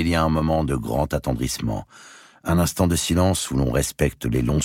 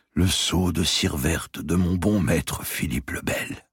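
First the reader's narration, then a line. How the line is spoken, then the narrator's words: Murmured. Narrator (French): murmure-t-il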